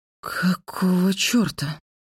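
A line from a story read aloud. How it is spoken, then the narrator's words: Breathless gasp. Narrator (Russian): выдохнула я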